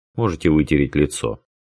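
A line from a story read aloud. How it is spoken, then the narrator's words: Calm advice. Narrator (Russian): спокойно посоветовал он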